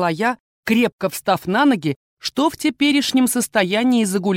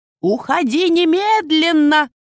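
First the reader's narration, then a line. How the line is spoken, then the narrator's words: Shouting. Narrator (Russian): закричала она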